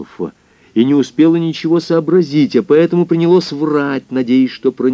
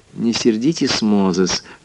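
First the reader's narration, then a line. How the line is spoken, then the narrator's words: Gentle. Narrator (Russian): ласково произнесла госпожа Мозес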